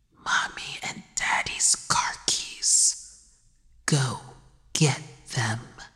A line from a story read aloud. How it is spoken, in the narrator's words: The child killer whispered